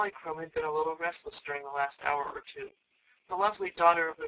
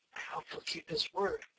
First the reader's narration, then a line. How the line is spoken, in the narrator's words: whispered Betsy to Shaggy